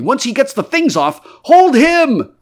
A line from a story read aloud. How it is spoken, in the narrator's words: cried everyone